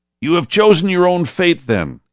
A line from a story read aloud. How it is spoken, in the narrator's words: he shouted in disgust